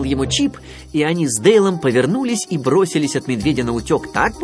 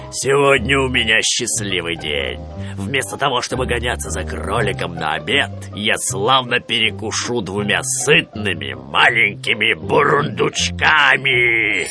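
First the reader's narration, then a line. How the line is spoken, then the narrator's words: Bear growling. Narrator (Russian): Медведь ... прорычал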